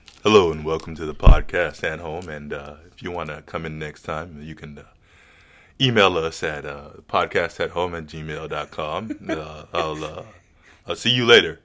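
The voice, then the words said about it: Exaggerated very deep voice. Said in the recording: “An incredibly deep voice. ... Now, listen to the deepness of my voice.”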